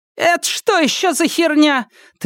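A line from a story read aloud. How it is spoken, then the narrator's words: Woman's cracked-voice shout. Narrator (Russian): треснувшим голосом крикнула женщина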